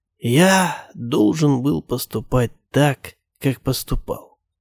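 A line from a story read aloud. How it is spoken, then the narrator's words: Dying whisper. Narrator (Russian): шепнул он мне на смертном одре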